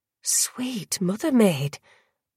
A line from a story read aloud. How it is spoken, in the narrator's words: Rain whispered